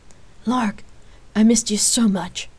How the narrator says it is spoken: Jace replied excitedly

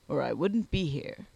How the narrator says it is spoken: replied Sponge, adding with a grunt

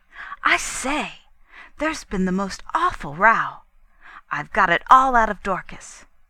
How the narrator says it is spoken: Cynthia greeted me eagerly with

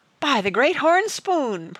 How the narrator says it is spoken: Praiseworthy gasped

